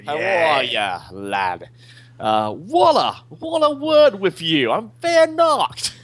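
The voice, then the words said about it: Bad put-on Australian accent. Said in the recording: “How bad is my Australian accent? ... Pretty ... Terrible. ... This is actually worse than the last time you tried it.”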